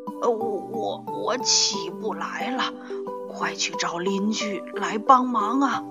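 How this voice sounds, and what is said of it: Strange, odd-sounding voice. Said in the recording (Chinese): “他用一种古怪的声音说”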